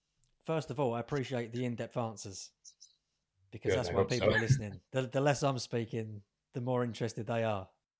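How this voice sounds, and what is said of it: Working-class East London accent. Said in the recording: “this accent ... Instantly identifiable as working class East London borders.”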